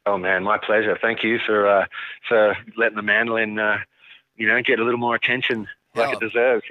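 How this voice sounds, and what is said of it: Australian accent. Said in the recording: “Great accent. ... That's where ... is from ... Australia”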